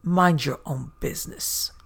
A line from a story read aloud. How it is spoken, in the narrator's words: said in a raspy voice